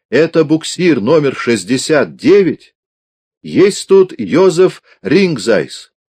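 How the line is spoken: Loud clear shout over barking. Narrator (Russian): Она старалась перекричать собачий лай, и потому, по возможности, громко и отчетливо крикнула еще раз

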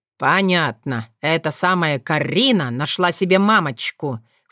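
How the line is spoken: Snorting. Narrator (Russian): фыркнул Вран

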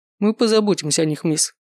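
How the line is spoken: Dry guard. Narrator (Russian): сухо ответил один из стражей

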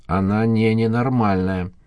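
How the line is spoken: Hoarse voice. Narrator (Russian): проговорил эксперт охрипшим голосом

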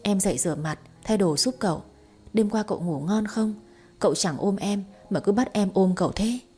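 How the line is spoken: Whisper. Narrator (Vietnamese): thì thầm

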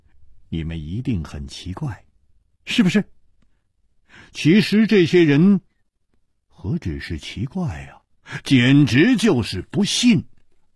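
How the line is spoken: With a smile. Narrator (Chinese): 楚留香笑了笑

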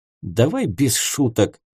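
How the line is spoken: Gruff mutter. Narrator (Russian): буркнул Герент

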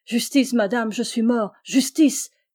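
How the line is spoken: Shouting. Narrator (French): criait-il

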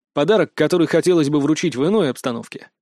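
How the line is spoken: Plain. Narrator (Russian): сказал я

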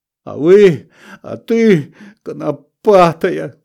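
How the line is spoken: Tearful shout. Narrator (Russian): крикнул я сквозь слезы

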